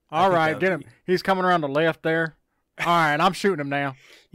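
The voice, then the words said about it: Put-on country accent. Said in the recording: “You keep going country today. ... You do a pretty good country accent, though.”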